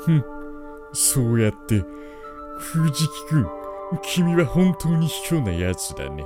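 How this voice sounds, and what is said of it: Cartoon character impression, sneering tone. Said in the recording (Japanese): “モノマネ ... 悪態をつく、ちびまる子ちゃんの長沢くん”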